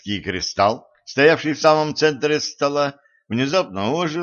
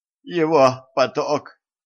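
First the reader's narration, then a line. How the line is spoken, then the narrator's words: Moan. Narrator (Russian): простонал дежавю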